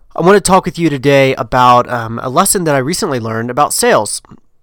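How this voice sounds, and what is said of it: Slightly hoarse voice. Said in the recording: “I have a little bit of a cold and a little bit of a hoarse voice going on from a cold”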